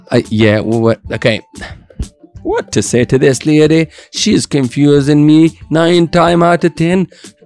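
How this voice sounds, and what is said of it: Put-on accent, unclear which. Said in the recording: “I don't know what is the accent I'm putting on right now, but it's kind of sounding good in my head ... I think it's a Scottish again ... No, no, no, no. That was not Scottish.”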